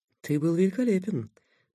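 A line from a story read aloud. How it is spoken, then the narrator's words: Muttered. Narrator (Russian): пробормотал Такэда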